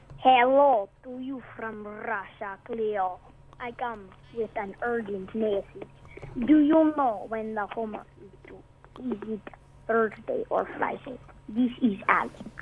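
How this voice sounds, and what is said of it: Silly put-on Russian accent. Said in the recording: “doing a silly Russian accent”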